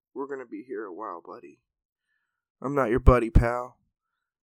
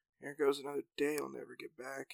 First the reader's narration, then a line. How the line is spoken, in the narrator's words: grumbled Jack